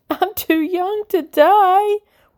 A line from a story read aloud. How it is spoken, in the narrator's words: whimpers Gwendol